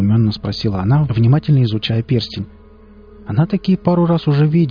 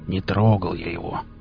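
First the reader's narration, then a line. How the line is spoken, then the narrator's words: Uneasy grumble. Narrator (Russian): буркнул Велес, почему-то вдруг ощутив себя крайне неуютно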